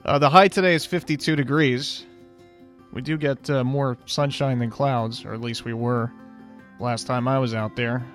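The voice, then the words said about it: Strained, failing voice. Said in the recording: “I think I'm losing my voice.”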